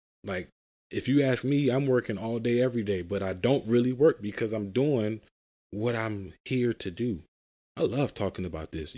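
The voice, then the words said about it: Passionate, enthusiastic speaking voice. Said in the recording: “You can probably hear it in my voice how passionate I am about talking about purpose over profit.”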